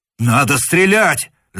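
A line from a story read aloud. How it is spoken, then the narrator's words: Shouting. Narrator (Russian): закричал штурман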